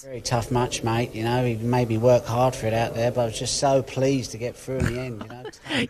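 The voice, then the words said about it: Londoner doing a bad Australian accent. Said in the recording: “You can hear the London ... A London person doing a bad London accent and ends up being a bad Australian accent. It gets better as it goes on.”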